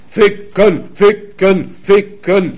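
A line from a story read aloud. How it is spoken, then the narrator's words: Crowd roaring in unison. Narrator (German): brüllte es aus 100 Kehlen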